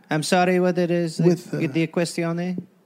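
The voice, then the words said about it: Put-on Italian accent. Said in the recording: “Now I'm going to start talking in an Italian accent because you're doing it.”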